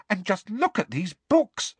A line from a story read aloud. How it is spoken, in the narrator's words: said Hermione excitedly